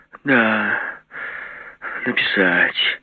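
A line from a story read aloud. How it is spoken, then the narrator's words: Drawn-out drawl. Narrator (Russian): протянула она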